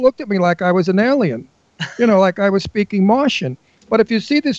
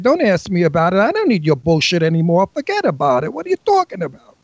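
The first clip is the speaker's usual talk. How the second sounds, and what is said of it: Exaggerated Brooklyn tough-guy accent. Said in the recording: “I used my Brooklyn accent ... So I use my broken accent”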